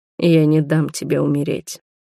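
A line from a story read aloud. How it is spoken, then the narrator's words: Hoarse dragon voice. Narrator (Russian): хрипло проговорил дракон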